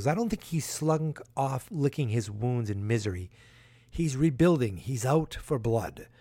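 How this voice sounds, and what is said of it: Imitates another person's accent. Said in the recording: “I'm not going to do his accent, but I'm doing it”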